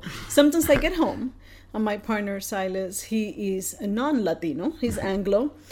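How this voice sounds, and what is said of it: Thick Latino accent. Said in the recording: “you could tell the Latino accent ... my accent is just like, you can actually, it's so thick that I think you need like an ice pick or something”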